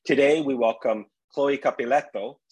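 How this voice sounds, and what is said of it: Italian accent on a name. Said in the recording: “See, I did my Italian accent ... I appreciate the accent.”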